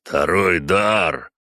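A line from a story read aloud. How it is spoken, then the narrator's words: Growled. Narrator (Russian): прорычал он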